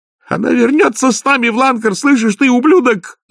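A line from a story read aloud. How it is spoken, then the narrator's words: Shouted. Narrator (Russian): закричала Маград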